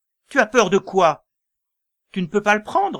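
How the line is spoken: Irritated man shouting. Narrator (French): l'homme s'énerva et lui cria

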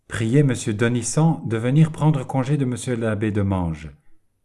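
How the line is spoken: Curt, dry. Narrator (French): dit-il sèchement

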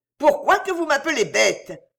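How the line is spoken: Shouted over machine noise. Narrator (French): cria Rosalie, car déjà le tapage des machines avait recommencé

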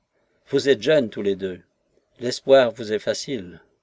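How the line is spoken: Old woman sighing. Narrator (French): La vieille dame soupira

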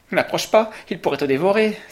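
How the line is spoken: Exclaimed. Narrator (French): s'exclama Henri

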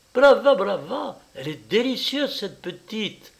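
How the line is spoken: Sighed. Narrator (French): soupira Madame Dulce

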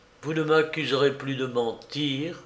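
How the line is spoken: Soft, gentle. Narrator (French): dit-il doucement

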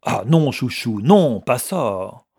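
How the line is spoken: Brutal tone. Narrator (French): l'accent brutal de la voix

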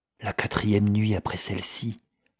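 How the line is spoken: Breathless murmur. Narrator (French): avait murmuré Patterson dans un souffle

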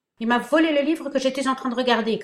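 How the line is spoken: Snarling spit. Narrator (French): cracha Laurent d'un ton hargneux

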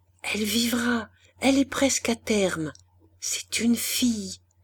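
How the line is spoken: Murmured. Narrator (French): Christiane ne put que murmurer

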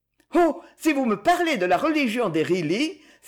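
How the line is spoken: Disdainful exclamation. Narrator (French): s'écria Aliette avec dédain

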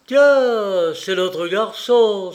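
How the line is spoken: Exclaiming. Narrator (French): s'écria Lord Jerry

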